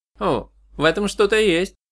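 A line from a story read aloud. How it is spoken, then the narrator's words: Thoughtful. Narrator (Russian): задумчиво произнес Шун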